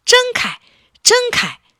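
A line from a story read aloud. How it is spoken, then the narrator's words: Anxious shouting. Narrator (Chinese): 汽车们急得大叫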